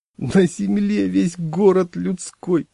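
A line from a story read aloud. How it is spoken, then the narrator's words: Sobbing. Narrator (Russian): зарыдал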